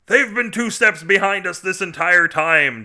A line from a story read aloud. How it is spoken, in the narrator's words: General Invader bellowed